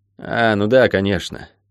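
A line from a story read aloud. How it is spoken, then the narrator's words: Boy's sigh. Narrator (Russian): вздохнул рыжий мальчишка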